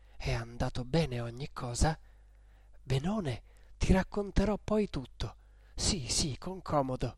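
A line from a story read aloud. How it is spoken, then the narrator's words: Quiet undertone. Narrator (Italian): le disse sottovoce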